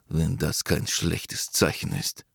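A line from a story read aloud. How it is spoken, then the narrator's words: Whispered to himself. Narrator (German): flüsterte er vor sich hin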